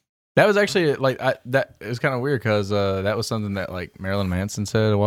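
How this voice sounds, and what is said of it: Usual voice. Nothing is said of it.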